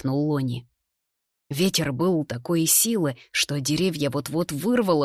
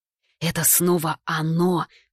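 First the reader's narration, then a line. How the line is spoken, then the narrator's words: Hissed. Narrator (Russian): прошипел имбирь Барбарику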